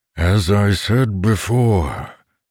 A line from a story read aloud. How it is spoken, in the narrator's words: that voice boomed in mind